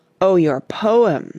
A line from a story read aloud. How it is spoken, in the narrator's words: said Douglas, rather scoffingly